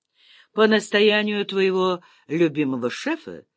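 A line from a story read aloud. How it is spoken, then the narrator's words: Calm question. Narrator (Russian): спокойно спросил генерал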